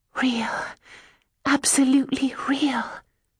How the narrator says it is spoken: I whispered

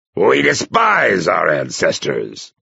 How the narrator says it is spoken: he barked

